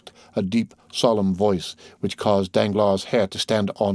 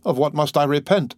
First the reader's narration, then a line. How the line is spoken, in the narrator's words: stammered Danglars